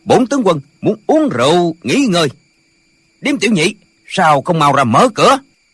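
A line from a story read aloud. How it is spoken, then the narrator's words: Loud barked order. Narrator (Vietnamese): có người lớn tiếng quát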